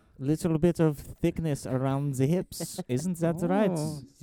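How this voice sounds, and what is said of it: Put-on German accent. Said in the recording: “We're the second episode where we're doing a German accent.”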